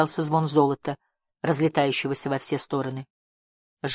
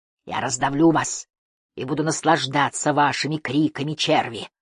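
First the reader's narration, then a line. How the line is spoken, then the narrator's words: Hissing. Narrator (Russian): шипел Геллик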